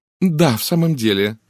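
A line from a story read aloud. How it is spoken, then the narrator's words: Sighing. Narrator (Russian): вздохнула мисс Монро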